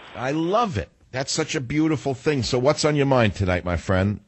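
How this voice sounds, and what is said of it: New York accent. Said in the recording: “I love that you have an accent that's real. I have a real one. ... you're too New York”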